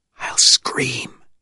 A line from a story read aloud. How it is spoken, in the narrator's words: the woman whispered